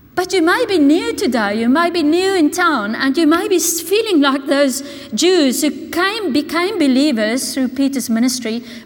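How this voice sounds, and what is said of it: Strong foreign accent. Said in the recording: “accent was a lot stronger than now, even though it is still very strong. You can identify me by my accent.”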